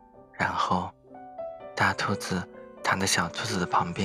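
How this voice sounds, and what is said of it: Usual voice. Nothing is said of it.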